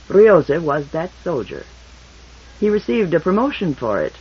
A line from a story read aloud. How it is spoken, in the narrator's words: Broderick said dryly